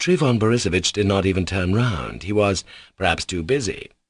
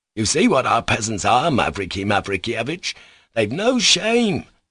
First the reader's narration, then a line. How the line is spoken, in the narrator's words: exclaimed Trifon Borisovitch